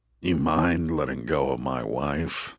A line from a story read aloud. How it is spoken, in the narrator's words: Mike growled